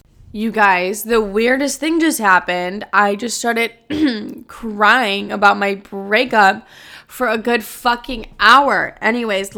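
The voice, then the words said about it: Teary, emotional voice. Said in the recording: “as you can probably hear it in my voice, I've been like teary-eyed”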